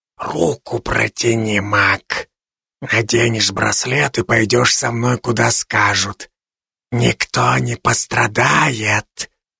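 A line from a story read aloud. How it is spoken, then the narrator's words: Monster hissing menacingly. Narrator (Russian): шипело склизкое чудовище, угрожающе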